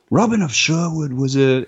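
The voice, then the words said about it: Pierce Brosnan impression. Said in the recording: “That was a good Brosnan. That was a good Brosnan impression.”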